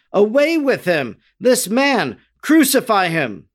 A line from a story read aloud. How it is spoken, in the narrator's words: they yelled